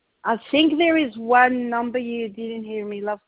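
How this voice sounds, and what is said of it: Noticeable accent. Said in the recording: “Sorry, my accent.”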